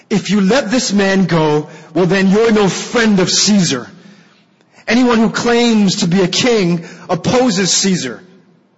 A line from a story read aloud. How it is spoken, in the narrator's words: the Jews kept shouting